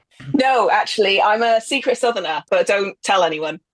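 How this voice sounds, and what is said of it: Yorkshire accent. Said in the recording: “I can tell by your accent, you're not from the Black Country ... I've been up in Yorkshire for about 15 years now, so I sound like one of them.”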